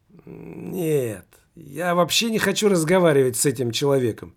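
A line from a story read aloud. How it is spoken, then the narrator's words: Exclaiming. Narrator (Russian): воскликнул знакомый незнакомец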